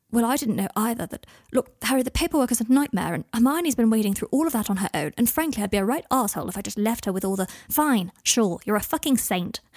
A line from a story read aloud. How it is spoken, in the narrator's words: Harry had snapped